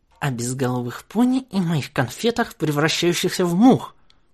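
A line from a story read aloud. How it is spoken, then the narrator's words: Through gritted teeth. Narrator (Russian): процедила Бон-Бон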